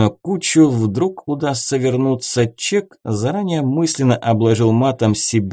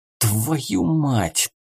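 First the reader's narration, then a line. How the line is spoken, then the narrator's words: Hissed. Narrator (Russian): прошипел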